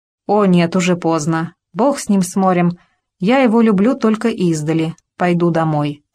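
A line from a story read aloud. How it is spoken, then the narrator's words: Plain. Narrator (Russian): сказала баронесса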